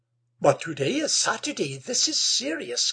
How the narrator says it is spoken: gasped Amanda

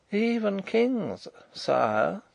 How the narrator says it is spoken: said Rupert in a moralising tone

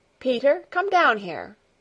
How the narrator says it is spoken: Heidi called out, in a peremptory voice

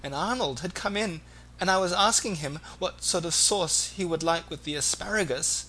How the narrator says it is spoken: Mombi tearfully

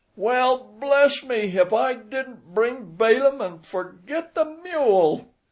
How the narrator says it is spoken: The woman laughed till her eyes ran water

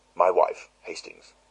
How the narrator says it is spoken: said John

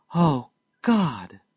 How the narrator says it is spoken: she faltered

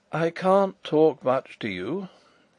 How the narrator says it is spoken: said in a weak voice

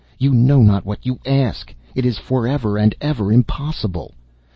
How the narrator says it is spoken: in desperation, he cried

